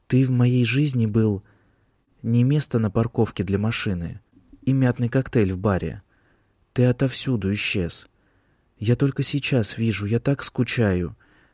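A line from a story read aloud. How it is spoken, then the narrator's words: Quiet. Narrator (Russian): тихо добавила она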